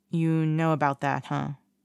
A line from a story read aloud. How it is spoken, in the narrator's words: He asks quietly